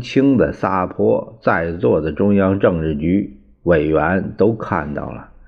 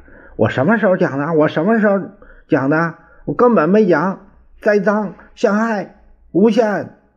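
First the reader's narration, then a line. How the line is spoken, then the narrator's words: Furious loud roar. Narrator (Chinese): 江青气得青筋暴涨，高声吼着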